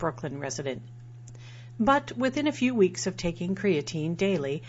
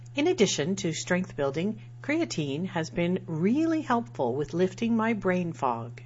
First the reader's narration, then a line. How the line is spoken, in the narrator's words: says